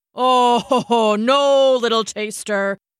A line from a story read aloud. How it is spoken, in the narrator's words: said with a laugh